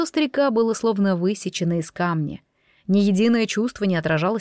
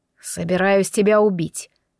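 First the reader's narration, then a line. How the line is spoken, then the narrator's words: Cold reply. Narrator (Russian): холодно отвечал он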